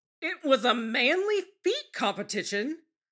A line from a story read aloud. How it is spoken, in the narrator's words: Sanji sputters